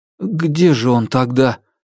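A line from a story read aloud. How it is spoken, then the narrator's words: Unsure lieutenant asking. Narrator (Russian): неуверенно спросил подпоручик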